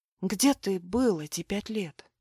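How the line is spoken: Quiet question. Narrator (Russian): тихо спросила

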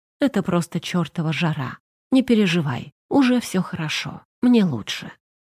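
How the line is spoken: Quiet. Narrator (Russian): тихо произнес

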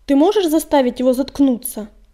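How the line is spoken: Displeased bark. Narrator (Russian): Недовольно рявкнул он

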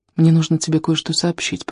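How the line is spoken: Whisper. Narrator (Russian): прошептал он

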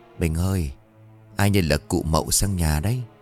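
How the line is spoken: Hushed woman's voice. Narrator (Vietnamese): bà vừa nói khẽ với chồng

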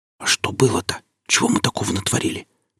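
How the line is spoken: Whispered in ear. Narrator (Russian): прошептал в ухо

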